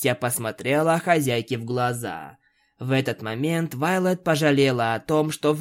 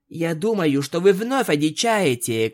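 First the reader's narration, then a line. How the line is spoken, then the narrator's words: Shouting. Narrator (Russian): кричала Твайлайт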